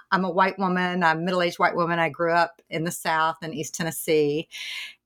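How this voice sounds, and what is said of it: Southern US accent. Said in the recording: “you can probably hear, as can your listeners, that uh, this is a Southern accent”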